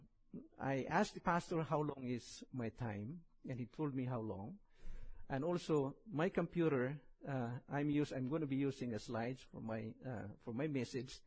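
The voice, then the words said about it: Very strong accent. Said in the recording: “I have a very strong accent and sometimes hard to understand”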